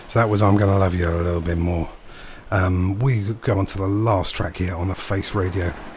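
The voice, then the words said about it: Deep, congested voice. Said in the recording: “I know I'm not doing my Barry White impression. I've really got a cold.”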